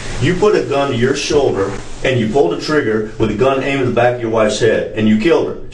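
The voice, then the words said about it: Slight Southern American accent. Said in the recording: “I got a little southern accent”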